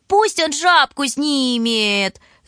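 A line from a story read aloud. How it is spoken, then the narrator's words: Shrill childlike squeak. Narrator (Russian): запищал Бурмистров, изображая маленького, как ножом по стеклу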